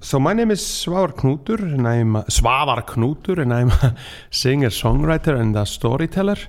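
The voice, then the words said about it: Icelandic-accented English. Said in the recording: “This is an Icelandic accent... you sound like you're from the countryside”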